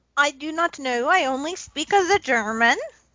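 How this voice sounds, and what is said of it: Awful put-on German-style accent. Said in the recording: “I lost my accent ... I've got to work on Girdle's accent ... I'll work on my awful accent. I'll make it worse.”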